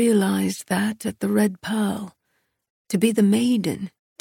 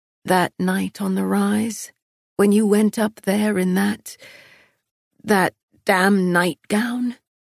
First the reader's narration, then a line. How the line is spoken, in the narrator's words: His chuckle was rough